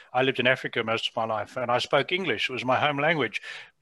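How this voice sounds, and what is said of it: Southern African English accent. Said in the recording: “as you can hear from my accent... British English as spoken in Southern Africa is quite different to North American English”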